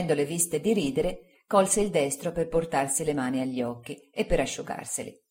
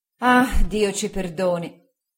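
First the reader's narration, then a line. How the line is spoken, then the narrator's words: Aunt sighing. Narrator (Italian): sospirò mia zia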